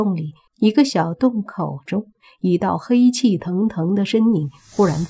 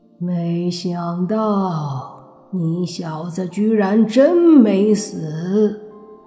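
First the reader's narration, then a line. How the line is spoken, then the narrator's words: Hoarse angry roar. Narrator (Chinese): 怒吼一声，发出沙哑的声音说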